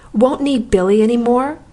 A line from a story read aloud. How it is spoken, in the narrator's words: exclaimed, with a rage that made my voice literally scorch past my lips